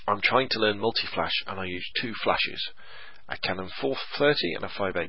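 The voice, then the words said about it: Congested voice with a cold. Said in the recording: “I've got a bit of a cold, I keep sniffling.”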